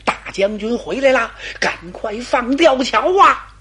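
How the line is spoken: Shouting. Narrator (Chinese): 手下人这才喊

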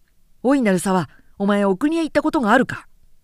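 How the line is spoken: Loud voice. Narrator (Japanese): 大きな声である

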